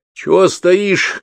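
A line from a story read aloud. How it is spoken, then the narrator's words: Shout. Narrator (Russian): крикнул мне кто-то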